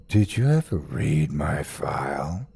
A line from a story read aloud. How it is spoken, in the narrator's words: He asked softly